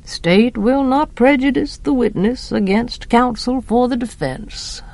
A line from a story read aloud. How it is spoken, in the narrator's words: murmured Judge Taylor primly